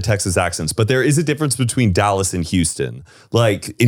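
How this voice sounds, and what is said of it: Usual voice. Nothing is said of it.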